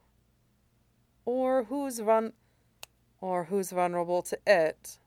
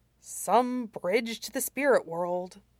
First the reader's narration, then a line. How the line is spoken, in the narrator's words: Shirong muttered